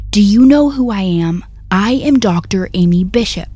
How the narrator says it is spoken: this only made Amy more mad, and she began screaming at the top of her lungs

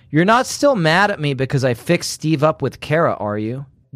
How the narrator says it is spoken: Jessica asked

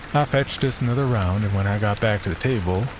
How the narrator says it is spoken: Henry sighed

